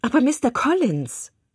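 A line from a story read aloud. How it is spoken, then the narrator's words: Agitated exclamation. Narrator (German): rief Elizabeth ziemlich erregt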